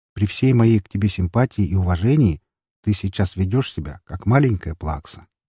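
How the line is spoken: Forced calm. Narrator (Russian): как можно более спокойно произнес я

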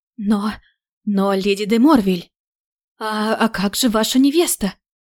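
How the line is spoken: Stammering clergyman. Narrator (Russian): Запинающимся языком попытался воззвать служитель церкви

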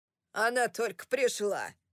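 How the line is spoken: Thundered. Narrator (Russian): прогремел Уолтер

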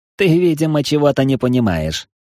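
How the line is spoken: Snorting demon. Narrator (Russian): хмыкнул демон

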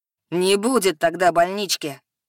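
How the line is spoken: Growl rising to a shout. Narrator (Russian): Рыкнул Машьелис и повторил, повышая голос до крика

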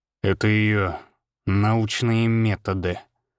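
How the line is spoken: Through gritted teeth. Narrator (Russian): процедил Григор сквозь зубы

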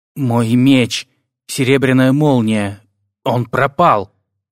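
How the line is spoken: Dejected voice. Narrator (Russian): поникшим голосом ответил Дарнтл

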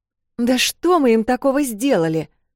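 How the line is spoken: Exclaimed. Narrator (Russian): воскликнула Эл

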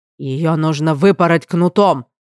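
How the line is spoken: King barking, grimacing. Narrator (Russian): рявкнул король, скривившись

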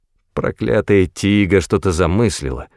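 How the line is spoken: Grumbled. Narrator (Russian): проворчал

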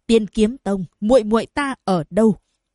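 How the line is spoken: Harsh, menacing. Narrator (Vietnamese): Diệp Huyền gằn giọng nói

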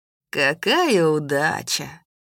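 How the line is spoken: Drawl. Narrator (Russian): протянул идущий рядом со мной Кер

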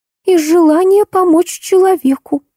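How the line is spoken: Sobbing. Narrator (Russian): всхлипнула Алиса

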